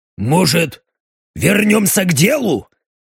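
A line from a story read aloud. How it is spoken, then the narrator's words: Slightly irritated question. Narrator (Russian): несколько раздраженно спросил Даррен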